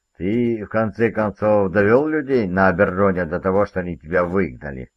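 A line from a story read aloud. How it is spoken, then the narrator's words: Laughing. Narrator (Russian): Он рассмеялся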